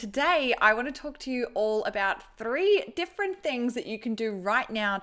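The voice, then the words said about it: Australian accent. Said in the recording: “sounded really Australian at the end there ... The old Aussie accent is coming out in force”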